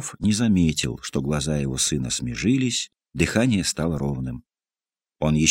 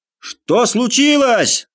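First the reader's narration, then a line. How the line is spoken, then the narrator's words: Shouting from a window. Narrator (Russian): закричал Удалов из окна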